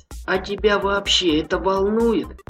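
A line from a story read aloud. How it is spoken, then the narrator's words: Plain. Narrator (Russian): спросил страж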